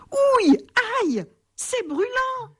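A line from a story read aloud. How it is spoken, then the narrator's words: Yelling. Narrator (French): hurle-t-il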